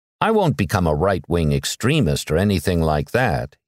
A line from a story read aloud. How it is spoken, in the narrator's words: he said